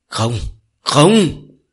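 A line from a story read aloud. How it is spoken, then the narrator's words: Frantic scream. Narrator (Vietnamese): Song Tình gào lên thất thanh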